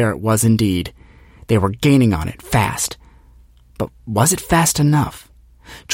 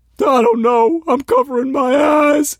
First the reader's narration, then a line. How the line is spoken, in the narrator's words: Jeff Lynn whimpered